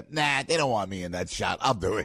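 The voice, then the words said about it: Put-on Staten Island accent. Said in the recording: “with her Staten Island accent”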